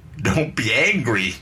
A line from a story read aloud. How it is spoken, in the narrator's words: begging not to be driven away, pleading not to be forced out